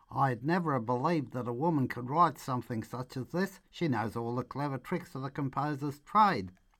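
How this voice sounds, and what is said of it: Put-on broad Australian Ocker accent. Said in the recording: “put on my best Ocker voice ... some Ocker character”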